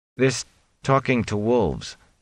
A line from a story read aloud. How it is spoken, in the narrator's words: Perrin said uneasily